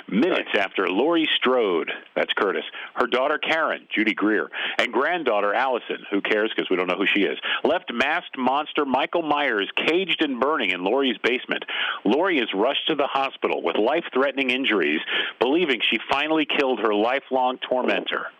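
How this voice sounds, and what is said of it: Movie-trailer narrator voice. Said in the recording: “in my best synopsis guy voice.”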